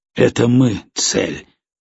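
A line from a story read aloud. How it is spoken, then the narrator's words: Gloomy. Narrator (Russian): мрачно произнес жеребец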